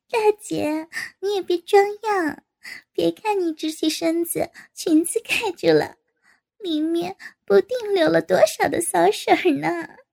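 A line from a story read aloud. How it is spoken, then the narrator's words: Giggling. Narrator (Chinese): 赵颖嘻嘻笑道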